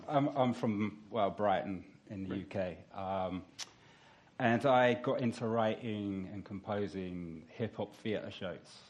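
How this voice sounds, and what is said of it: British accent. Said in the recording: “That's a British accent”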